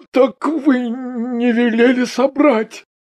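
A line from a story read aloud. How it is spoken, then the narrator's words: Stammering. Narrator (Russian): заикаясь, сказал Коржаков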